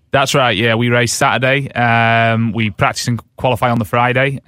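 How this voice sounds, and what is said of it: British accent. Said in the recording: “I love the British accent”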